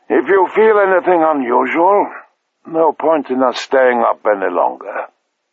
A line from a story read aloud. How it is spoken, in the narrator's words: said sleepily